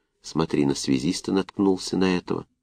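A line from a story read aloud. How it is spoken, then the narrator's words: Strained whisper. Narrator (Russian): шепотом выдавил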